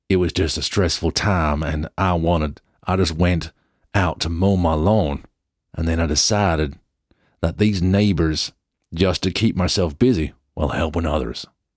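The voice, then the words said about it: Badly done put-on accent. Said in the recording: “That's the worst accent ever, isn't it?”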